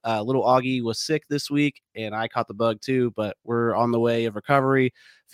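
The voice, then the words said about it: Raspy, slightly congested voice. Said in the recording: “my voice sounds a little raspy ... or if I'm a little sniffly ... I'm getting over a cold”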